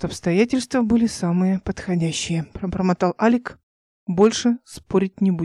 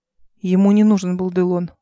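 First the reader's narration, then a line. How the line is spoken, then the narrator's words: Dry reply. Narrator (Russian): ответил Эл сухо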